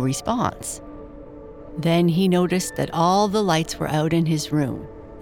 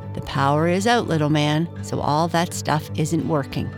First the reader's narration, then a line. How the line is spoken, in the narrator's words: his mother said